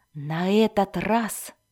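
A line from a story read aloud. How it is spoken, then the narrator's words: Loud admiring whisper. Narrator (Russian): громким шепотом обратился он к своим любимым клинкам, восхищаясь их замысловатым танцем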